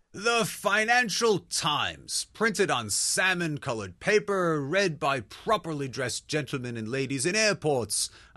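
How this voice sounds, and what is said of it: Put-on posh British accent. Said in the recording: “I'll stop with this accent.”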